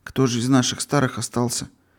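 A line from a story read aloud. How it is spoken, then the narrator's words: Quiet question. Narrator (Russian): тихо спросил Юрочка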